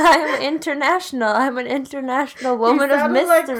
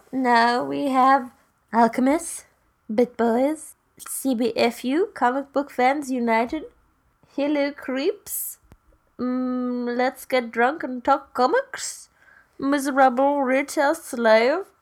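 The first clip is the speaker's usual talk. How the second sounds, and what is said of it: Accent shifting repeatedly. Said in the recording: “Your accent changed like 5 times.”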